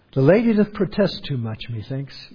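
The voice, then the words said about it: Weak attempt at Shakespearean accent. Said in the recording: “Now that could have been done with a little bit more Shakespearean brogue, but that's the best I can come with.”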